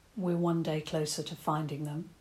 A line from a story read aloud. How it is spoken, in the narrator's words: Toby said softly